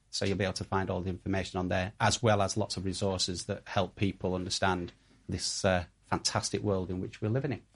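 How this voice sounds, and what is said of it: Mild posh Yorkshire accent. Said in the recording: “My Yorkshire accent ... he's not Yorkshire enough ... He's posh Yorkshire.”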